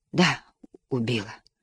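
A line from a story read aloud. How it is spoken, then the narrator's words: Dreamy whisper. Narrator (Russian): прошептала она, словно сквозь сон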